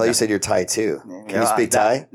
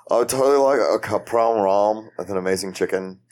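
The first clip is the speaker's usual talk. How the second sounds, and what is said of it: Mock Californian accent. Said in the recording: “making fun of my accent? ... I was giving you like a Cali accent”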